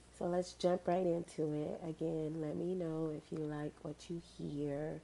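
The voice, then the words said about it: Stuffy, congested voice. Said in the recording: “my voice is a little stuffy.”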